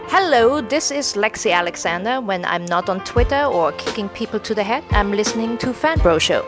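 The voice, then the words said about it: Speaks English with an accent. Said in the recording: “Should I try it without an accent? It'll never happen.”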